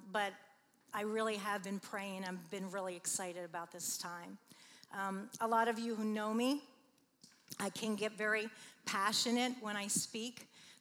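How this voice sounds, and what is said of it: Raspy voice. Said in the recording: “I have a little bit of a raspy voice”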